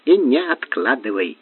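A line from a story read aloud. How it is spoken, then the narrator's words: Plain. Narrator (Russian): сказала Грильфи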